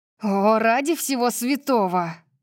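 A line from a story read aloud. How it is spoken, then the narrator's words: Growled. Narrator (Russian): прорычала я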